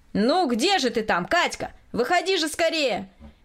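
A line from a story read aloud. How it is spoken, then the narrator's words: Impatient shout. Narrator (Russian): кричал от нетерпения Николай Васильевич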